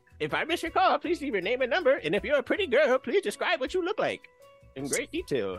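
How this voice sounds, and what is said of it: Imitates cartoon character Master Roshi's voice. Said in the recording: “I can do his voice too.”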